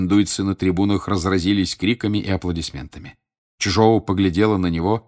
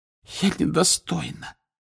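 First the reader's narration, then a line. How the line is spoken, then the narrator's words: Hoarse voice. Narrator (Russian): хриплым голосом проговорила Флер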